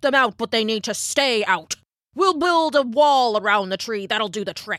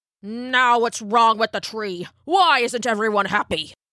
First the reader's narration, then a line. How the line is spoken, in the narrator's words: snapped